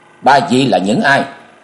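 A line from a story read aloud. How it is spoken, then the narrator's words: Shouted question. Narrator (Vietnamese): Nam Cung Lượng quát hỏi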